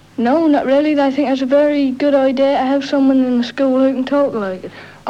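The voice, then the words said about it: Norfolk accent, East England. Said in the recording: “The boy in this conversation is from Norfolk, in the east of England.”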